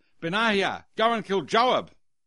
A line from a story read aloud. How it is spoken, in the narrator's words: Solomon shouted